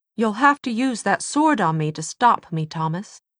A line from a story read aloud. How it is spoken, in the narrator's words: Tessa said in a cold voice